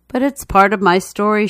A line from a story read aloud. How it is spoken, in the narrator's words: she says